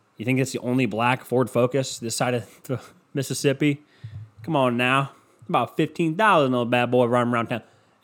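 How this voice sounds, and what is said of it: Put-on country accent. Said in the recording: “why am I keep doing the country accent, huh? I should probably drop that.”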